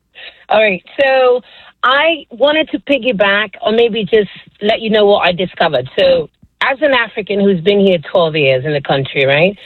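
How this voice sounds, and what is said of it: Kenyan accent. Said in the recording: “It's an incredibly sexy accent you have.”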